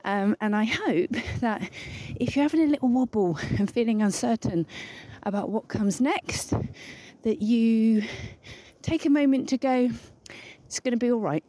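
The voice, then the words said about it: Slightly out of breath. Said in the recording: “getting out of breath. All this walking and talking, so hard.”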